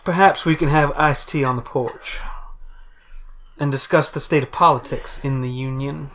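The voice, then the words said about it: Put-on genteel Southern drawl. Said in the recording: “in a southern ... A drawl? ... A genteel drawl ... It's a honeyed accent.”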